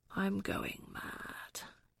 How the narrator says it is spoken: whispered

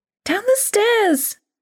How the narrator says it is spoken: Grace cried

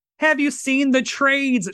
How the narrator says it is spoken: cried out

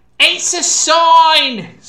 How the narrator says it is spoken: Someone shouted in Latin

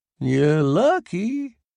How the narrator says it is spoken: Bud drawled

